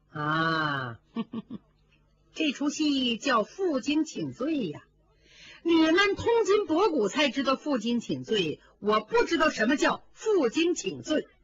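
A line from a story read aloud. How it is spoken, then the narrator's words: Sneering. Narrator (Chinese): 宝钗冷笑道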